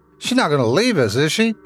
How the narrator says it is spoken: Tommy shouted

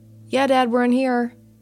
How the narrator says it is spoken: shouted from one of the bedrooms

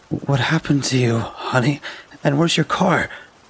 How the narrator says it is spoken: cried, with a worried look on her face

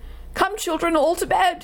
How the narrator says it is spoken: he cried

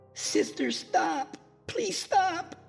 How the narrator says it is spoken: Vivian screamed

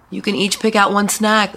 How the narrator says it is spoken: Sarah shouted

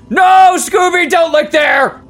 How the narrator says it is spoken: Velma shouted

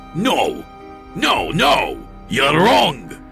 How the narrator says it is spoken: he shouted at me

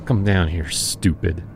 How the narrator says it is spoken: Jonas muttered, smacking his lips

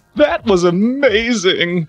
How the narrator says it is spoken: Ronald sobbed honestly

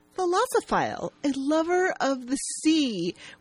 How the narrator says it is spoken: Vanessa happily responds

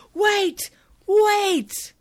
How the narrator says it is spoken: Matt yells

